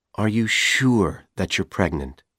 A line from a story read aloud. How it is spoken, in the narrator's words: He asked her gently